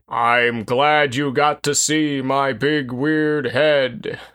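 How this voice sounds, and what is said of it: Impression of Baylock's voice. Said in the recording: “good Ruck impression ... that was Baylock”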